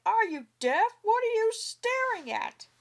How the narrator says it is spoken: Rushing out of his house, he came right up, shouting

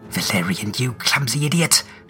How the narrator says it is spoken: Trace hisses

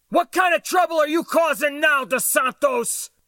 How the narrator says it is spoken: shouted

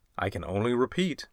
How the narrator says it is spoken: I replied

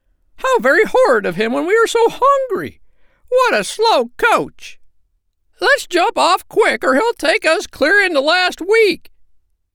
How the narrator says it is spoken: cried the silly sandpipers

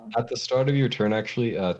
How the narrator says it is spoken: Tetch yells

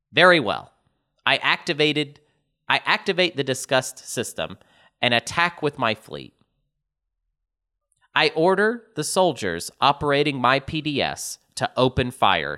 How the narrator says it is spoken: says Simon

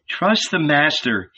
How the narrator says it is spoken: said

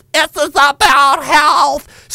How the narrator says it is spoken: screamed the obese transgender health minister

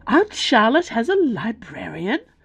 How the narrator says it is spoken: Bella gasped

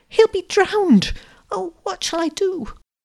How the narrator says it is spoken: gasped the girl

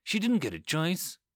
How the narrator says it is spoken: she said quietly

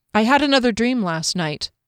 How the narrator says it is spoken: Thinking quickly, she said

